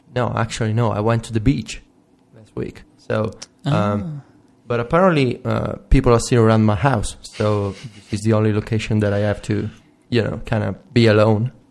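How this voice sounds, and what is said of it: Italian accent. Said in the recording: “It accentuates the Italian accent.”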